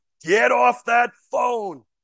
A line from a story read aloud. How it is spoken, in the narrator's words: the judge almost like a lion, he roared